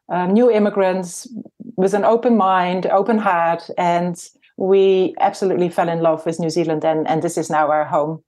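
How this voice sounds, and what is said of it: Slight foreign accent. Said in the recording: “I noticed you have a little bit of an accent.”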